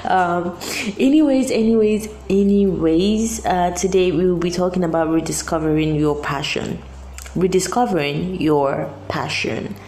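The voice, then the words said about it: Voice sounding off, unwell. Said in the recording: “pardon my voice. Um, the weather is doing something to, to my voice.”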